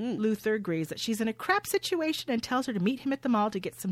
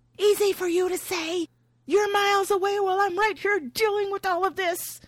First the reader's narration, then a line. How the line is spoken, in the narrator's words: Nora, in a panic, hisses